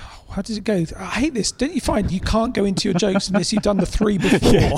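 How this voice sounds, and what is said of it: Usual voice. Nothing is said of it.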